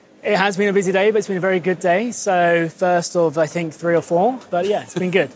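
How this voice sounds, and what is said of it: Hoarse, fading voice. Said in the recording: “I know you're losing your voice. ... That voice is totally gone by the end of the ... I apologise if it's difficult to understand what I'm saying.”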